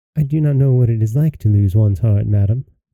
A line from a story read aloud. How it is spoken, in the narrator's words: replied